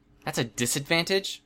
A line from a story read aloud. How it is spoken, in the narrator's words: Regent asked